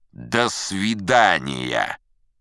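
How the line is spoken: Rude. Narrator (Russian): грубо сказал

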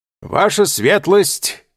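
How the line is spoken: Shout. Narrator (Russian): крикнул Чичероне

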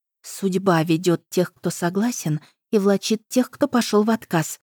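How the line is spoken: Awed whisper. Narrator (Russian): прошептала Фемида, увидев в этом движении нечто мистическое

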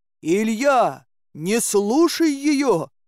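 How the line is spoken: Shouted. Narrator (Russian): крикнул он

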